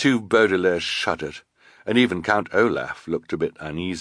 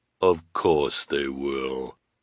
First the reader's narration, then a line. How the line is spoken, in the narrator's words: said the sinister woman, in her deep, deep voice